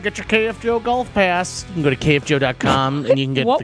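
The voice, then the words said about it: Put-on tour guide announcer voice. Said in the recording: “What was that voice? ... I'm giving like a tour. ... that voice I used when I did that street fair tour ... your voice if you were to get on, like, the intercom and call up, like, the next team at a golf course”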